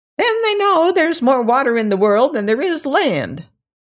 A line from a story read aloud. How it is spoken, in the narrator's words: asserted the crab in a shrill, petulant voice